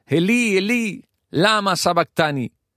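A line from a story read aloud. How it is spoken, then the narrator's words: Loud clear cry. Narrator (Spanish): Jesús dice claramente, gritando en alta voz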